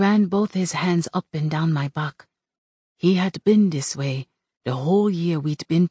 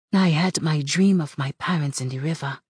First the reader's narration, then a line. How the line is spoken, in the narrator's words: I said